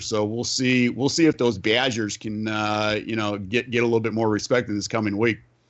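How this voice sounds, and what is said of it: Put-on Wisconsin accent. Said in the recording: “you were throwing on your Wisconsin accent there. I love it.”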